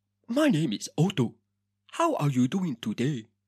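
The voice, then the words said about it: Put-on African accent. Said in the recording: “one accent I can really do ... is a fucking African one ... Why can I do an African accent”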